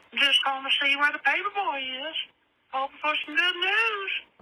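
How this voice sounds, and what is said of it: Impression of Herbert the Pervert. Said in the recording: “that's from Herbert the Pervert ... that impression is better than mine”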